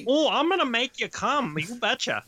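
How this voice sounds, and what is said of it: Exaggerated Wisconsin accent. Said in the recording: “she's got this really pronounced Wisconsin accent”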